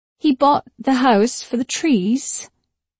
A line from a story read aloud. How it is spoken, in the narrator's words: I said slowly in a British accent like Laurence Olivier